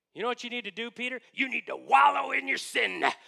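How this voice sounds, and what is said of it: Stern preacher voice. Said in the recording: “give him the preacher voice”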